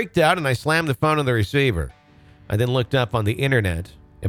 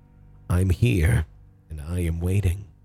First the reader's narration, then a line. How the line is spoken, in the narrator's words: a small, timid-sounding voice whispered